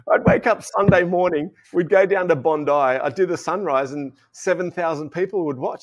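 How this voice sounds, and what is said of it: Australian accent. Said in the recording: “your Aussie accent”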